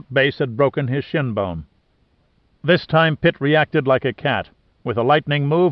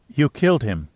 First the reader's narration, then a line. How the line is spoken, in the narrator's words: said finally in a normal tone of voice